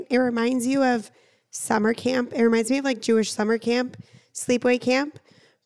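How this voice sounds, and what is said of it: Raspy, hoarse voice. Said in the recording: “my voice is just giving, you know, raspy, sexy vibes”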